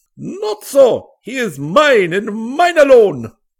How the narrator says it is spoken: shouted the Arab

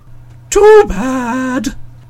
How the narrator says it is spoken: sighed Googly Goo

